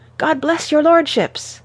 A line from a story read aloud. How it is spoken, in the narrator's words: shouts of